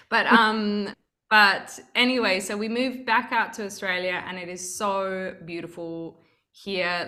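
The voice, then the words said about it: Mixed Australian and English accent. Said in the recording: “I've got a kind of weird melged accent, which is like Australian English. People like, so I'm like too posh for Australians and too Australian for England.”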